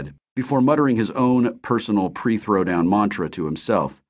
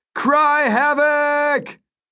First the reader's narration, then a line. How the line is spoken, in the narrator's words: as loud as I could, I shouted